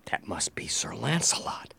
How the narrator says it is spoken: whispered to myself

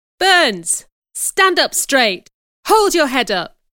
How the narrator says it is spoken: she cried

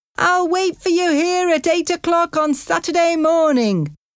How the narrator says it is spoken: shouted Jimmy

